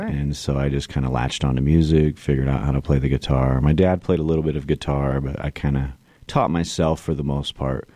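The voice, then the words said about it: Slight drawl. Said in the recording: “you have a bit of a drawl ... I still detect a little bit of it”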